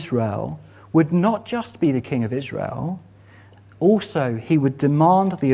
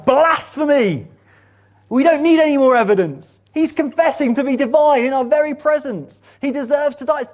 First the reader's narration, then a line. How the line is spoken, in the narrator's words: And the high priest tears his robes and shouts